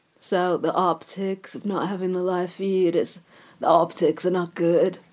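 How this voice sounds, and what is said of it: Poor impression of TV drama character. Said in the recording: “Just going to do my Succession impression here... that impression of Kendall Roy... That was absolutely diabolical.”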